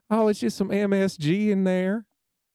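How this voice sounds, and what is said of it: Put-on Southern accent. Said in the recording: “southern accent”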